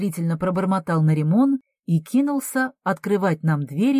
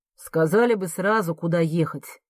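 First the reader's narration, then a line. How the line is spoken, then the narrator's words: Grumbling. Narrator (Russian): проворчал таксист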